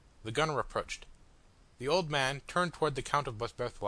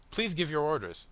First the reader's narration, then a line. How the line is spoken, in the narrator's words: replied Boisberthelot